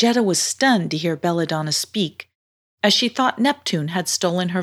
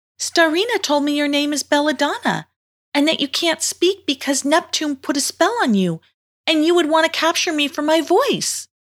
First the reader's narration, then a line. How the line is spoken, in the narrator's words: cried out